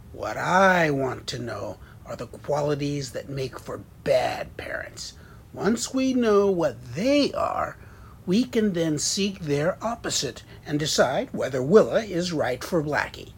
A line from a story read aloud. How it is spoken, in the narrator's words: With another roar, cleared his throat and said